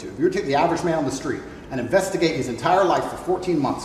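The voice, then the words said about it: Muddled mix of British and American accent. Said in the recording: “no longer speaking with a British accent ... He is a little bit, there's a little tinge of it there ... a weird muddled in-betweener accent. It's not quite British and it's not quite American. It's a weird meld of the two.”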